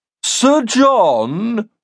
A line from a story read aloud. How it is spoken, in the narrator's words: Wilson intoned